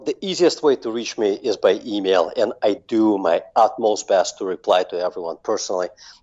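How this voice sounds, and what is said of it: Russian accent. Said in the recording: “that accent. Where is that accent from? ... born and raised in Russia”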